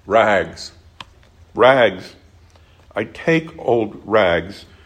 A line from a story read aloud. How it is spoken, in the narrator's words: cried the sobbing ragman